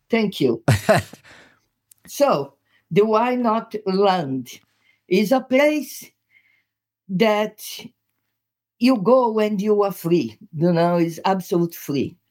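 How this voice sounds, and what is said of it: Brazilian-accented English. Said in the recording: “It's my accent, okay? You guys there listening to it, you might have a bit of a problem to adjust your ear to this Brazilian accent. ... Which is beautiful, I have to say.”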